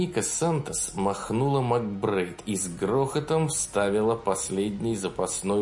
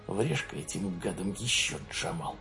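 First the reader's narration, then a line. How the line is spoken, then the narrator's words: Growl. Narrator (Russian): прорычал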